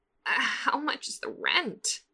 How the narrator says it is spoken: Catra asks hoarsely, feeling a little stupid

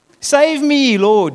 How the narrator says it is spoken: shouted

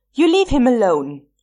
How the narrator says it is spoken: he yelled

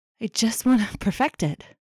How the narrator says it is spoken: Felix pants

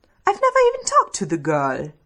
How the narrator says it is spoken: Stiles splutters

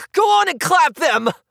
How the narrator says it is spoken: His voice rose hysterically

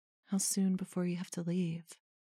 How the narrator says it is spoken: Puel asks, her voice soft

